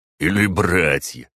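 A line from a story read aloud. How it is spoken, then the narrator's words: Short chuckle. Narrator (Russian): хохотнул четвертый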